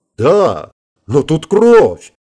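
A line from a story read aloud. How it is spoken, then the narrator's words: Shouting over loud din. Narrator (Russian): Стараясь перекричать грохот переворачиваемой мебели и воинственные вопли дерущихся, воскликнул председатель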